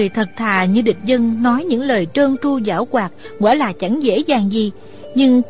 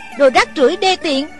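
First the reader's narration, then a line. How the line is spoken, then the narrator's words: Scolding. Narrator (Vietnamese): Thủy Sinh thì mắng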